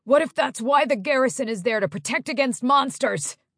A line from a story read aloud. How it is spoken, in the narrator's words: Yoen shouted